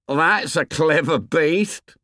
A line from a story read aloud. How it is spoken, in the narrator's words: said Piggy, jeering